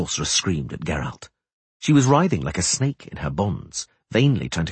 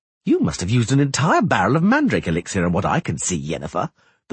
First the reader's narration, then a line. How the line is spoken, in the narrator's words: the bard laughed